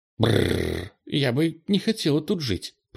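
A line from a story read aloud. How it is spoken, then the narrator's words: Mumbling. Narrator (Russian): пробормотал Ира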